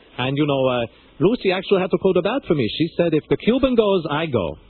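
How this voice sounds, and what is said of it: Thick Cuban accent. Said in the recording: “my accent was a little thick”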